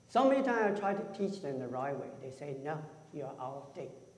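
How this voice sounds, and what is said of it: Speaks English with a noticeable accent. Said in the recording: “with all the accent? You probably cannot tell what am I talking about.”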